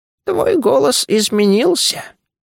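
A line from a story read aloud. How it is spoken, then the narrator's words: Creaky voice. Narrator (Russian): проскрипела Лумоа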